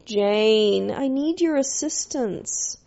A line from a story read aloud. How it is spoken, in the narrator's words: She'd moan